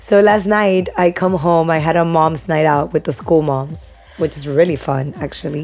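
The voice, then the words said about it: Husky, strained voice. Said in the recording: “Sorry about my voice ... Sexy.”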